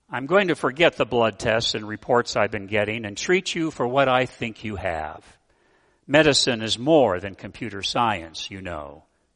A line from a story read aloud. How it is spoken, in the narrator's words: she said